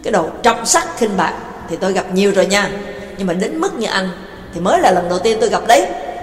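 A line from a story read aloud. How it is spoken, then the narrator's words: Furious scolding shout. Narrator (Vietnamese): Tức tối quát miệng ra mắng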